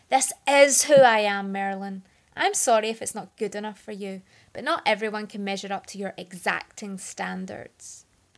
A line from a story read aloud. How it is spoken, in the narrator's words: in a fit of rage and whirled on Marilyn, shouting